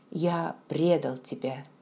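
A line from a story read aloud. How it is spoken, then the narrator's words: Quiet. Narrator (Russian): тихо произнес он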